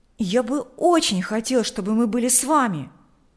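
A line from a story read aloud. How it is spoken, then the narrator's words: Exclaimed. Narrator (Russian): воскликнул Миша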